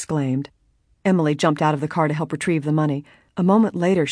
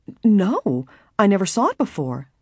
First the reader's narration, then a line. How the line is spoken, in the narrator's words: Nancy stammered, completely astounded